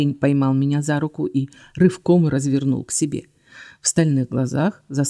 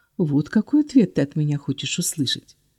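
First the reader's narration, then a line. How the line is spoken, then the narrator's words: Very even quiet question. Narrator (Russian): Очень ровно и тихо спросила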